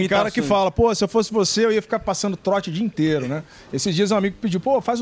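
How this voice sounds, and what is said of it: Usual voice. Nothing is said of it.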